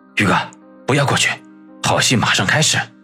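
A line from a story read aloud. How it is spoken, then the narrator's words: Low voice. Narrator (Chinese): 小东北低声的说道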